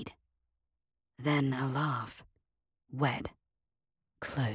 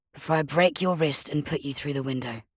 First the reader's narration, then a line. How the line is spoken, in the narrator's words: said calmly